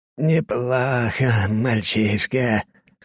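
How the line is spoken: Rasp. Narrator (Russian): хрипит он

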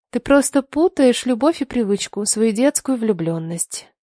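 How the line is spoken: Soft female voice. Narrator (Russian): мягко сказала она

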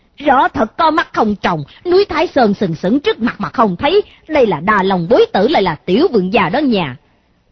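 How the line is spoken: Shouting loudly. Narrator (Vietnamese): Bọn tùy tùng của hắn cũng quát to

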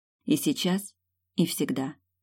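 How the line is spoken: Soft speech. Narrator (Russian): говорит тихонько

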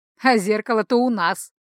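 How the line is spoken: Sly sing-song voice. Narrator (Russian): Разве что не пропел он своим ехидным голоском

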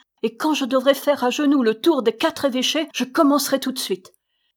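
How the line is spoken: Orphan girl's cry. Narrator (French): s'écria l'orpheline

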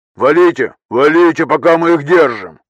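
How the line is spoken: Barked. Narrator (Russian): рявкнул третий

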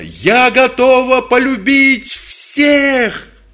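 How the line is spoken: Shout. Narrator (Russian): она закричала

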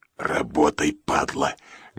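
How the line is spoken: Menacing hiss. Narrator (Russian): грозно зашипел Влад

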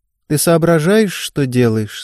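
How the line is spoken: Calm question. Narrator (Russian): спокойно спросила Ева

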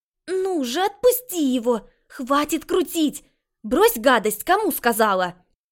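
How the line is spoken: Sharp shout. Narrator (Russian): прикрикнули

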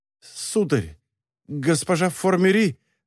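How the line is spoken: Stuttering, breathless, breaking off. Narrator (Russian): заикаясь, начал он, но, задохнувшись, вынужден был умолкнуть

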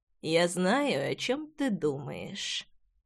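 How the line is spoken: Hoarse. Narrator (Russian): хрипло выговорил Джекс

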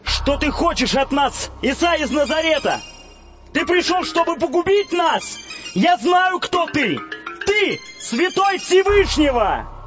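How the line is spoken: Sudden possessed shout. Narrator (Russian): человек, одержимый нечистым духом, который вдруг закричал

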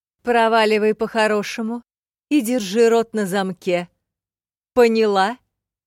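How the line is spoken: Woman shouting. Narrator (Russian): крикнула ей целительница

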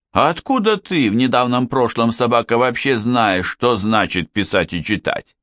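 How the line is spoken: Plain question. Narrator (Russian): спросил его Штернхайм

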